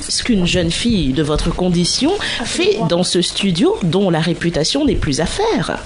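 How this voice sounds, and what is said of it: Pompous king character voice. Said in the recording (French): “l'accent d'un roi ... C'est le roi, ça.”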